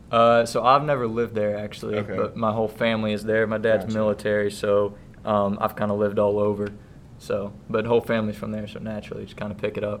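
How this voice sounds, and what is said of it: Slight Southern country twang. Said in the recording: “Got a little country twang. ... A little bit.”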